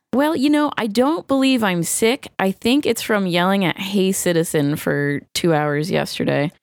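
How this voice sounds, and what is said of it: Worn, faded voice. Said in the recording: “I too am faded. And my voice, my voice is a bit faded tonight.”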